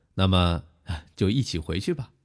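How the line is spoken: Laughing woman. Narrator (Chinese): 女子也笑道

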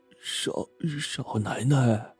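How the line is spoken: Stammering. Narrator (Chinese): 结结巴巴的说

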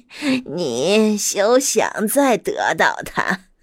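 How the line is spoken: Wicked laughing. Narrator (Chinese): 女巫邪恶的笑了笑，说

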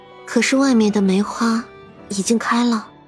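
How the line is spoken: Weak voice. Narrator (Chinese): 沈长安听见母亲的声音如此虚弱

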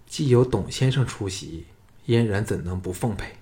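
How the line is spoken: Soft reply. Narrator (Chinese): 季嫣然柔声答道

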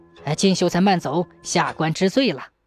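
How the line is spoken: Frightened, meek and humble. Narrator (Chinese): 蔡知县一听，吓得冷汗直冒，两腿发抖，低声下气地说

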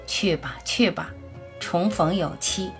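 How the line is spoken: Tearful smiling murmur. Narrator (Chinese): 他一丝微笑，眼中却忽然涌出泪水，喃喃道

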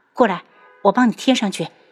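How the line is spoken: Soft voice. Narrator (Chinese): 楚清瑶 轻声道

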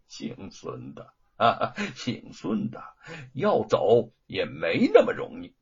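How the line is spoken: Sinister sneer. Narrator (Chinese): 罗万金狞笑着

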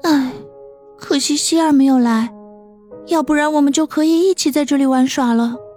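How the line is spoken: Soft sighing murmur. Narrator (Chinese): 轻轻叹口气，王鑫小声的自语

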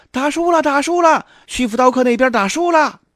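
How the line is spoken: Crowd crying out in alarm. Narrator (Chinese): 一众看客，惊叫起来

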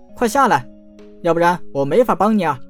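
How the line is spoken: Loud. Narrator (Chinese): 陈南大声道

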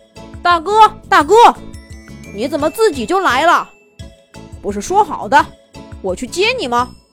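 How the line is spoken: Calling out. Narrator (Chinese): 他叫道

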